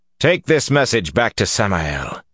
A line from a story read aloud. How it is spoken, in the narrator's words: said coldly